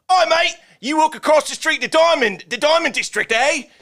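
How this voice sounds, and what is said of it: Bad mock British accent. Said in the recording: “British accent is so bad ... It's not Australian ... That was so bad ... it's terrible”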